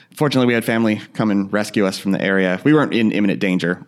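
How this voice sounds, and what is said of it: Slightly raspy voice. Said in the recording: “my voice is a little raspy, ... it's probably still the smoke I inhaled”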